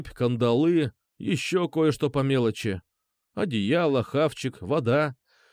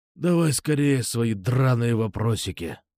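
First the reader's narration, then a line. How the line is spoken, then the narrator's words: Rasp. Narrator (Russian): прохрипел он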